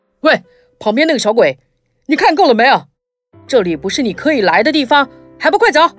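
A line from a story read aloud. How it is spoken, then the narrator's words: Soldier shouting. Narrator (Chinese): 门外的士兵大喊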